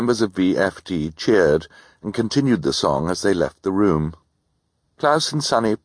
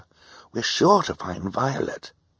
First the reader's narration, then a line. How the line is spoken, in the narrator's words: Klaus whispered to his sister